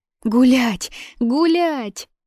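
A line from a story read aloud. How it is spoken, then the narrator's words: Girl shrieking. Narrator (Russian): завопила девочка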